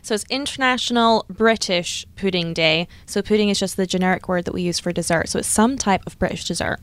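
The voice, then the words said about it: Slight Scottish accent. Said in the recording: “a little bit of an accent ... originally from Scotland”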